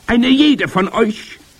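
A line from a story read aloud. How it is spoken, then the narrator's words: Thundering. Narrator (German): donnerte die Hoch- und Großmeisterhexe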